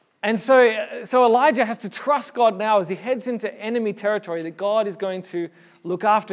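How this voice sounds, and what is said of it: Usual voice. Nothing is said of it.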